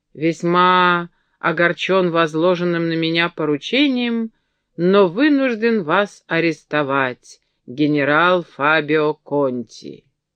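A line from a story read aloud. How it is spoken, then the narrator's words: Drunken voice. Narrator (Russian): сказал пьяным голосом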